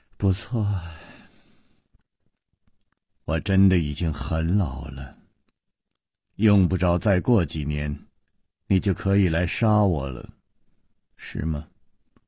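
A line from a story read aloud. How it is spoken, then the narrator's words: Sighing. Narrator (Chinese): 石观音又叹了一口气说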